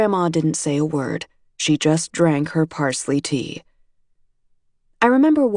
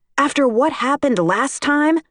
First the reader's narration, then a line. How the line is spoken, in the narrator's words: she shouts